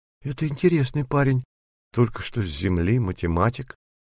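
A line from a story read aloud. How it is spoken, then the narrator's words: Thoughtful. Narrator (Russian): задумчиво произнесла Ники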